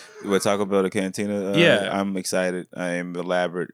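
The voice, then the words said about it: Flat monotone delivery. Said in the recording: “You hear this monotone”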